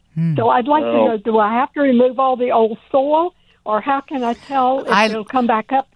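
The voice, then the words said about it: Southern American accent. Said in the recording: “I love that southern accent, that is soil. Soil.”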